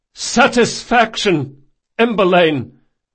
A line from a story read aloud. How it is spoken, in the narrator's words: came a return shout